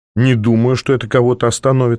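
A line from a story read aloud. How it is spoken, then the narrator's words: Grim. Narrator (Russian): сказал я мрачно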